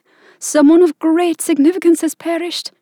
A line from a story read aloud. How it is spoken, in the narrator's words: she cried